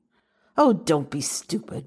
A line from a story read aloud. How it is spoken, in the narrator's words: Meredith snapped